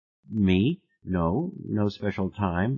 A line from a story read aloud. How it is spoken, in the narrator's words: I said